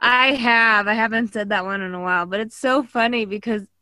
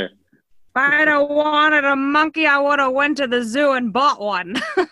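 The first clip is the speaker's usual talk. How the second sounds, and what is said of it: Imitates another person's voice. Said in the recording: “all my friends do that accent. My poor dad.”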